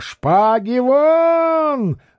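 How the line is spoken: Furious red-faced yell. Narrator (Russian): заорал багровея

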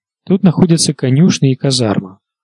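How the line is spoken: Plain. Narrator (Russian): сказала Мия

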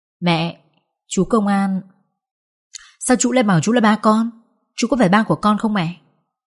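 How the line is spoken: Innocent child asking. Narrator (Vietnamese): Bo đôi mắt ngây thơ và hỏi tôi

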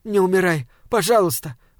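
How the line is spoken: Pleading. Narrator (Russian): взмолилась девушка

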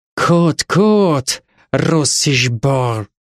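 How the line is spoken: Creaky hateful voice nearby. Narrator (Russian): проскрипел рядом ненавистный до жути голос

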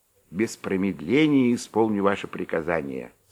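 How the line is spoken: Plain. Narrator (Russian): сказал они

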